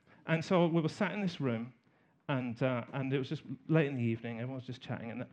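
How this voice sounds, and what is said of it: Southern English accent. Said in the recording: “I'm from the south of England ... taking the mickey out of my accent”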